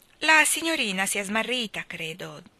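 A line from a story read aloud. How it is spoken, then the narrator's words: Plain. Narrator (Italian): disse lo zingaro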